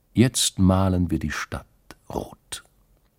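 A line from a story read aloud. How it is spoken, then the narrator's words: Calm. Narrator (German): sagte die Stiefel Katrin ruhig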